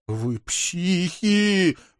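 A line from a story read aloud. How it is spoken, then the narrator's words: Full-voiced howl. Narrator (Russian): во весь голос взвыл Вик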